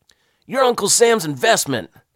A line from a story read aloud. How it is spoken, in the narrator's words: the fat sergeant barked at us